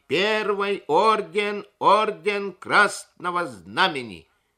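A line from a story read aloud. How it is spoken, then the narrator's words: Yelling at full volume. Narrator (Russian): Гринька орал, что есть моченьки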